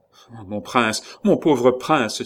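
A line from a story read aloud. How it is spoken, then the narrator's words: Anguished cry, old servant. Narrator (French): s'écria l'autre vieux serviteur de François, avec les signes de la plus violente douleur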